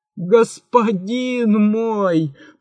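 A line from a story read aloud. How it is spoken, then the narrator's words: Groaning. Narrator (Russian): простонал великий визирь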